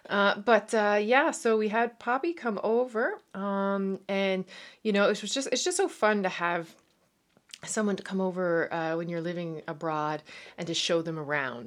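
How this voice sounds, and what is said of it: Newfoundland accent with Irish twang. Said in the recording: “If you hear a little Irish twang ... a lot of people say they can hear my Canadian accent”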